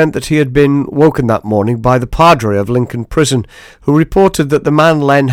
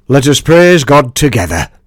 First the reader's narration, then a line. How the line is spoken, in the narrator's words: in a broad northern accent, Len began